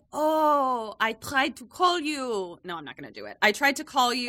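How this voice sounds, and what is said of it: Put-on French accent, abandoned. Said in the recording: “You got a French accent”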